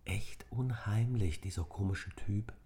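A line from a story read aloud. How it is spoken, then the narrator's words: Whispered. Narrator (German): flüsterte Nick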